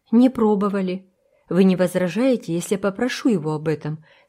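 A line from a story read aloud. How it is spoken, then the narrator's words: Plain question, seller. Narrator (Russian): спросил продавец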